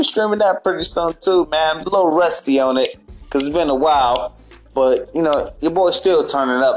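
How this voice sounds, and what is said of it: Usual voice. Nothing is said of it.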